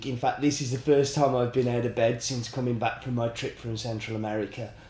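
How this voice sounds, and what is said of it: Sick, congested funny-sounding voice. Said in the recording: “that's my funny voice. ... today I'm ill. ... I have the mother of all chest infections and uh, really quite bad flu.”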